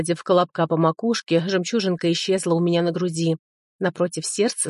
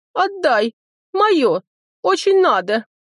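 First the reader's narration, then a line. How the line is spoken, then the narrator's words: Sobbing, broken words. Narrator (Russian): Сквозь рыдания прорывались отдельные слова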